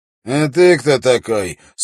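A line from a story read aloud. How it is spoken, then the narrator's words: Rude prisoner asking. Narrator (Russian): спросил пленник грубо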